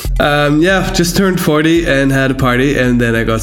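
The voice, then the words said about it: Congested, blocked-nose voice. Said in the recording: “my voice sounds a bit different because I'm at home. I've been down with the flu for a week and my nose is still clogged”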